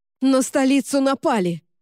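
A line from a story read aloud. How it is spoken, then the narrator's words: Shouted. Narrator (Russian): крикнула капитан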